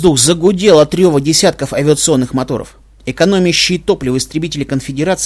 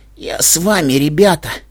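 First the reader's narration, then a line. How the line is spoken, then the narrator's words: Hoarse, labored speech. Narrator (Russian): прохрипела она, с трудом выговаривая каждое слово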